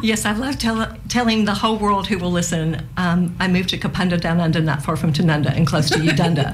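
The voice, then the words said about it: Memphis American accent. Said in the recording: “you're originally from Memphis, aren't you? ... Hence the accent.”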